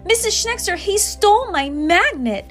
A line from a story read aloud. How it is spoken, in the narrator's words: another student exclaimed across the room